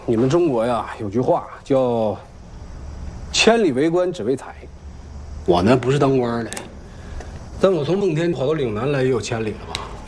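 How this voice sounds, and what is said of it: Speaks with Northeastern Chinese accent. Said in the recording (Chinese): “你一个日本人东北话说的这么好”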